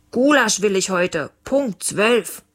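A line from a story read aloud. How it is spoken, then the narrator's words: Called after. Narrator (German): Leons Papa rief ihm nach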